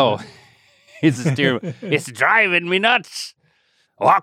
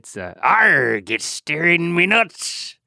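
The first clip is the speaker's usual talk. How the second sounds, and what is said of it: Weak put-on pirate accent. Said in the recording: “you gotta find a way to do more of a swarthy type of accent”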